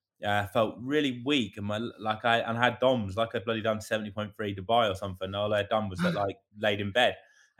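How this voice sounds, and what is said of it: Congested, bunged-up voice. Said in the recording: “My throat was bunged up. Like, you could probably hear it in my voice now. My nose was.”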